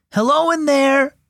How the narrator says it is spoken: Jude called out

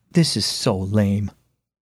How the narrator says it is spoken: muttered

